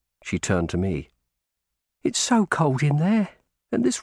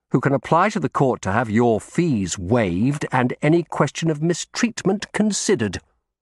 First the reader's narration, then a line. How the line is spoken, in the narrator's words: I replied sharply